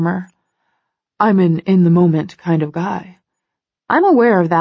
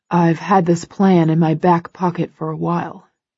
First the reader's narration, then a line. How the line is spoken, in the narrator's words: he says dryly